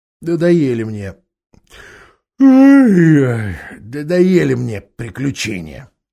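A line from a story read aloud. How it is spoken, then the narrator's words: Displeased grumble. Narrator (Russian): недовольно буркнула Джилл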